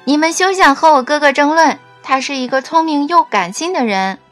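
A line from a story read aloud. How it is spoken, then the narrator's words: Loud. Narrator (Chinese): 卡佳大声地说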